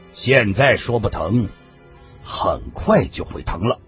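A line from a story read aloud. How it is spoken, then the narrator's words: Cold. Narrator (Chinese): 小马冷冷的说道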